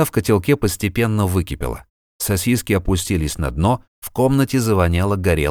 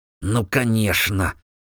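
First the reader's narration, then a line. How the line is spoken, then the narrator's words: Hissed through teeth. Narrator (Russian): зашипел он сквозь зубы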